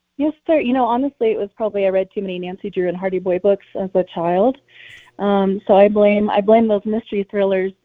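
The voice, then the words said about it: Congested voice from a cold. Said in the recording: “I'm getting over a cold, so my voice isn't the best.”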